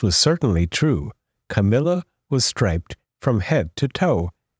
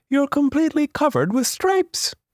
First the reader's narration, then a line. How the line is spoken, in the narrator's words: cried